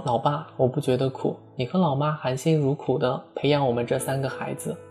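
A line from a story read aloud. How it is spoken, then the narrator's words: Smiling. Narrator (Chinese): 我微笑地说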